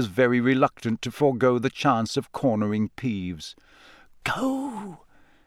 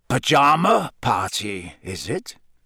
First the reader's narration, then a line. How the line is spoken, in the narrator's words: He growled up the stairs